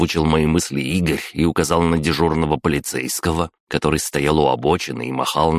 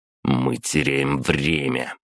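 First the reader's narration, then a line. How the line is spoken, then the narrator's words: Through clenched teeth. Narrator (Russian): процедил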